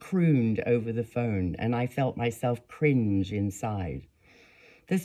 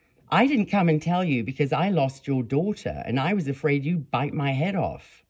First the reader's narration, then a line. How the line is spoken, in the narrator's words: I exclaimed, sounding so sincere I surprised myself